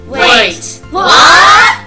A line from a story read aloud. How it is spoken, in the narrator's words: They shouted in unison